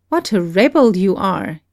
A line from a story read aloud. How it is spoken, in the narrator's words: he exclaimed